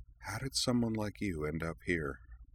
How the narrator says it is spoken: he inquired softly, almost under his breath

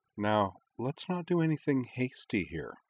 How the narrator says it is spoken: Nanami purred

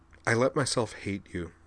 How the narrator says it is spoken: said softly

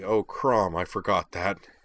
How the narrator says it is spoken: Aiko groaned

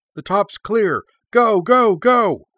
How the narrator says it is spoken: Arika called out

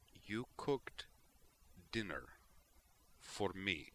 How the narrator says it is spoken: Tally said slowly

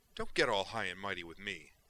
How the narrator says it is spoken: Kay snapped

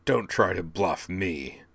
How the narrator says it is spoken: he snarled

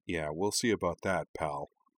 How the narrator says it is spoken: Cora muttered

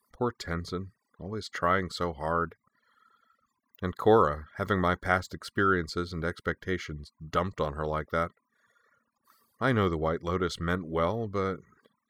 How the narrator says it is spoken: Aang said the last part with a grin, the expression faltered, slipping to a sad, wistful look as he said

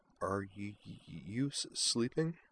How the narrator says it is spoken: she asked softly

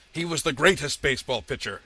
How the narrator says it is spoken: roared

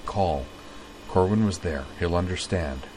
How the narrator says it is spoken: Utina murmured

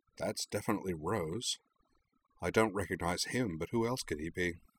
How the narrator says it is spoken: Rory mused quietly

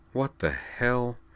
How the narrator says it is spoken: the guard muttered

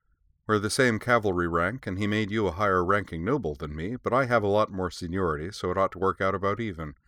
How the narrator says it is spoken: she added with a brief return of her little smirk

